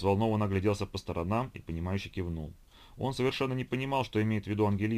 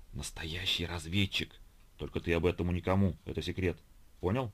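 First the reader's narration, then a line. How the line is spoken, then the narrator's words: Girl's secretive whisper. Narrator (Russian): Девочка, перейдя на шепот, произнесла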